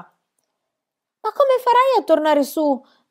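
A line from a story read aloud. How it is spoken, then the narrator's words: Shouting. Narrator (Italian): gridò Annika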